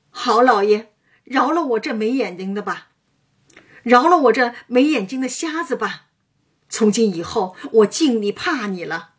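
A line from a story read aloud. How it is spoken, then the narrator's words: Crying out in pain. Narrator (Chinese): 薛蟠哎呦叫道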